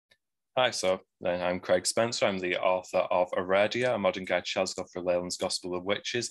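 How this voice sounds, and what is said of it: Northwest English Manchester accent. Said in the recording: “I obviously hear an accent. ... As you can tell, I do have an accent. I'm from Greater Manchester, which is in the northwest of England. ... our very folky accent up here”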